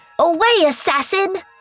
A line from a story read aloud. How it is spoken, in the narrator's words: Bandar yelled at it